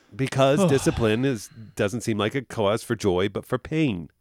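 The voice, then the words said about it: Put-on New Jersey accent. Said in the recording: “I don't know why I said that in a New Jersey accent ... you really did. It was almost a Beastie Boys accent.”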